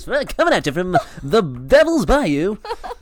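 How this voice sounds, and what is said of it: Put-on radio announcer voice. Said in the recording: “Radio voice.”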